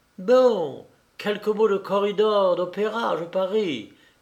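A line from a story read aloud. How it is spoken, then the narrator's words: Exclaimed. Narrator (French): s'écria la belle Anna Jackson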